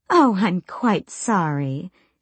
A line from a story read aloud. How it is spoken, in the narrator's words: she purred